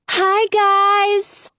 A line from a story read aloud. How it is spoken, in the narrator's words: Lana yells